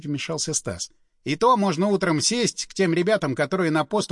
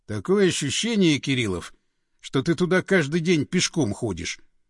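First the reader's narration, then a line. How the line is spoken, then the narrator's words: Wry snort. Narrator (Russian): хмыкнул Андреев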